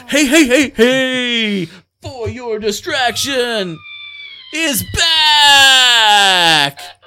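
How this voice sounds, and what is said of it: Radio DJ announcer voice. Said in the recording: “DJ voice”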